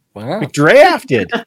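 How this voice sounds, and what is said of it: Put-on Texan accent. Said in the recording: “All of a sudden, I became Texan.”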